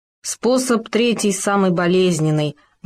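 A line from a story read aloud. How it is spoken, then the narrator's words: Grim warning. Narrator (Russian): мрачно предупредил Хома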